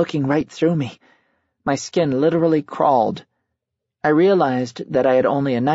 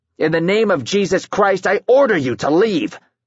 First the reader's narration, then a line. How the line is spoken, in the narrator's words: he said in a commanding voice